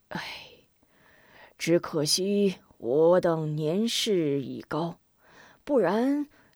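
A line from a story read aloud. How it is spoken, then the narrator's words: Sighing. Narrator (Chinese): 童阳叹了口气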